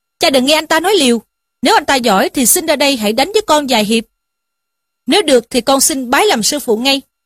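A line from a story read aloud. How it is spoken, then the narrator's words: Angry youth speaking. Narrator (Vietnamese): Thiếu niên ra dáng tức giận mà rằng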